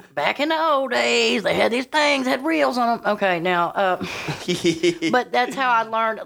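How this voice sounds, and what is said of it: Southern American accent. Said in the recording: “I have such a southern accent.”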